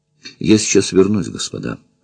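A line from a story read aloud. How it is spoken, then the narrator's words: Dejected, sinking voice. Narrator (Russian): произнесла она упавшим голосом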